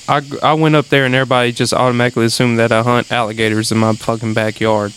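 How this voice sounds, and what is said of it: Thick Southern country accent. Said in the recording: “I never knew my accent was thick ... you sound so country”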